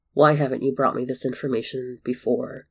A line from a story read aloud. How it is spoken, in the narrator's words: Voldemort asked in a cool tone that masked his rising fury